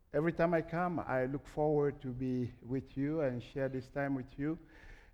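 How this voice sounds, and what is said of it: French accent in English. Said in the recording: “my English is going to be, again, crazy accent with a lot of French”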